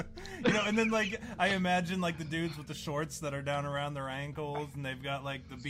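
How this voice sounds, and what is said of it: Usual voice. Nothing is said of it.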